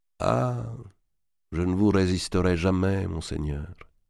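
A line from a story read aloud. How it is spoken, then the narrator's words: Sighing. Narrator (French): dit Tholoméï en soupirant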